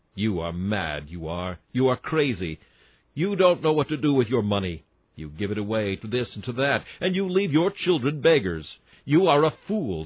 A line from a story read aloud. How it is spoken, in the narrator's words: said she